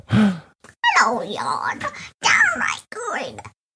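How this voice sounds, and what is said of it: Child doing an old lady voice. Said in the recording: “That's an old lady voice.”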